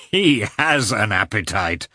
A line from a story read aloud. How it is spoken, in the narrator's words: said Oblonsky, laughing